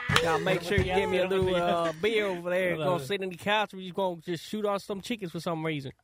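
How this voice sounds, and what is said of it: Convincing put-on thick country accent. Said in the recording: “that was so much better than mine. ... That was awesome. That's a great thick country accent.”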